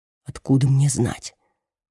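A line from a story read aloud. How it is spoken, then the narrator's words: Whispered reply. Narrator (Russian): Тоже шепотом отвечает ей Серджио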